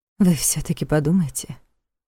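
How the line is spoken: Secretive whisper. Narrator (Russian): прошептала она, чтобы не слышали остальные

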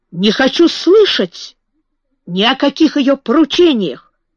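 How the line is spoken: Shouting. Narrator (Russian): закричал

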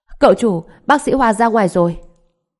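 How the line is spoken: Loud shout. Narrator (Vietnamese): Thập Thất hét lớn

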